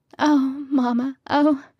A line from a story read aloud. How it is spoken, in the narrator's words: Kitty moaned